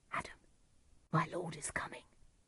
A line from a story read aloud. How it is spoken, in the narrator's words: whispered the servant